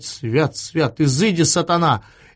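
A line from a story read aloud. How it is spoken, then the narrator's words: Laughing. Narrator (Russian): Эраст Петрович засмеялся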